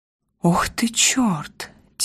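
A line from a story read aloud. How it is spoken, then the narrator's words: Quiet sigh. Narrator (Russian): тихонько вздыхает Макс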